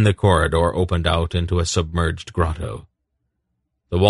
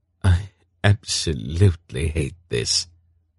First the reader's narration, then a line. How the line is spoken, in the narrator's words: Geryon heard Silk murmur from behind him